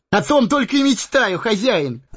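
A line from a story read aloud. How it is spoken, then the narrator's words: Joyful exclamation. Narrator (Russian): Обрадованно воскликнул он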